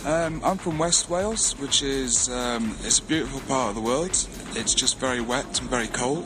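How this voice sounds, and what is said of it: Mild Welsh accent. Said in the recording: “Your Welsh accent has sort of, you know, been reduced to a really level that everybody can understand what you're saying.”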